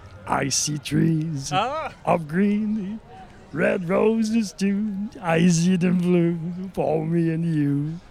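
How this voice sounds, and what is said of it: Sung imitation of another person's voice. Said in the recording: “I actually know old Satchmo ... really good”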